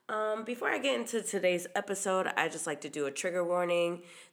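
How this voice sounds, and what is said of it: Stuffy, congested voice. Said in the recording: “I'm getting over a cold, so if I sound a little stuffy”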